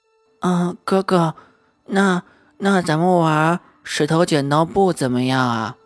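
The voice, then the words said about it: Quiet, soft little boy's voice. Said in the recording (Chinese): “小男孩垂着头，小声地说”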